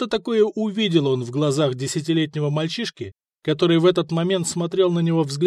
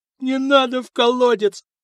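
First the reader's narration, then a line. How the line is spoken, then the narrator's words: Terrified whimper. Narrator (Russian): проскулил Борич, наливаясь ужасом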